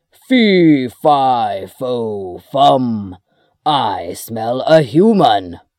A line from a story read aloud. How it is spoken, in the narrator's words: The giant roared